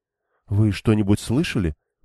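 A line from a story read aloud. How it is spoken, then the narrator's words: Whispered. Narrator (Russian): прошептала Фейли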